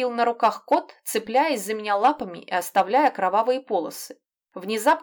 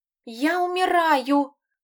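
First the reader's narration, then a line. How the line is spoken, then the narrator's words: Overly tragic groan. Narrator (Russian): простонала лягушка, пожалуй, немного более трагично, чем нужно, чтобы ей начали сочувствовать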